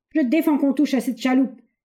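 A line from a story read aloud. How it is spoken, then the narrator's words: Shouting. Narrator (French): cria Knox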